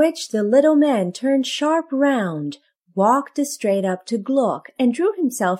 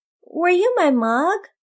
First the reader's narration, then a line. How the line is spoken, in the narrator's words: said Gluck timidly